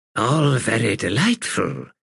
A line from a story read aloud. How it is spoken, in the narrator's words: Sister Reverence purred